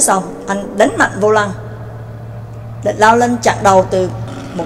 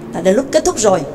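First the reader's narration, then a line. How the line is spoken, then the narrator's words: Resentful. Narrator (Vietnamese): Triệu Vĩnh hậm hực nói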